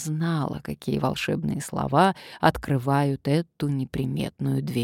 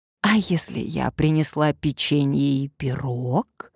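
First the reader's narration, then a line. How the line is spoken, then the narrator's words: Coaxing, ingratiating. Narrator (Russian): вкрадчиво проговорила Надежда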